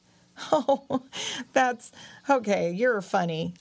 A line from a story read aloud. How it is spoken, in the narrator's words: laughed Power Dog